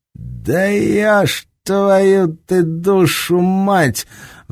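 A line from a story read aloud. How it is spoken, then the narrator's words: Roar. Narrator (Russian): взревел рядом с немцем Серега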